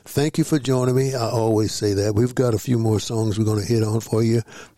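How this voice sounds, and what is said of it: Strained, sore-throated voice. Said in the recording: “I know you hear it in my voice, ... this throat is mine, killing me.”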